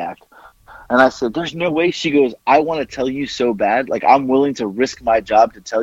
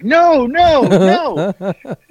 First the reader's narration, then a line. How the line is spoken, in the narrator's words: she's laughing because she's like